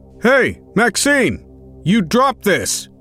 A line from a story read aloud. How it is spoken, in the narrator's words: rushed round the corner shouting out